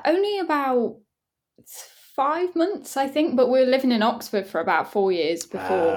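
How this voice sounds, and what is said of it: Derby English accent. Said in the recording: “I've got a very, very Derby accent”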